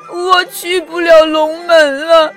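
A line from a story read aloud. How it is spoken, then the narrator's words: Crying. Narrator (Chinese): 红鲤鱼哭着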